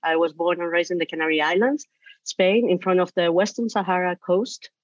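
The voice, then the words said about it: Foreign Spanish accent. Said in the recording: “with this accent, I was born and raised in a foreign country”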